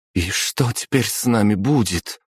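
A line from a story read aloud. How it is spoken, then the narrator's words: Trembling voice. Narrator (Russian): дрожащим голосом спросила новенькая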